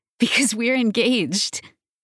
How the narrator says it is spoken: she says with a giggle

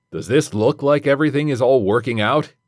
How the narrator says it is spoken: he exclaimed

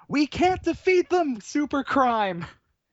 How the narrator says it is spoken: Killerella just shouts

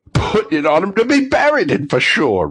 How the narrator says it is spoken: replied the old woman with a laugh

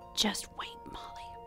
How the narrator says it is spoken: Heather whispered in my ear in a voice as chilling as Helen's

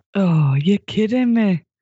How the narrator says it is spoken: she groaned

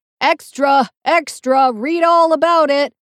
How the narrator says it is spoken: some guy yelling

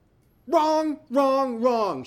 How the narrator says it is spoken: she screamed

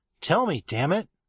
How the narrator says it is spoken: I said in a raised and aggravated voice

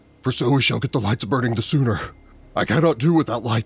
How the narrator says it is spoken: he panted

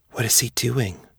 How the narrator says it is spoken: Jessup whispered to Xiong Jin

